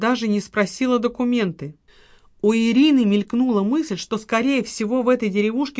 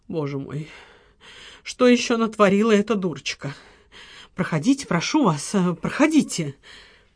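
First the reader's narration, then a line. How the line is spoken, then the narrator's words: Suddenly hoarse voice. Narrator (Russian): сказала внезапно осипшим голосом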